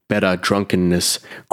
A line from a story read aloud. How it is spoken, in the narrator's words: growled the old warhorse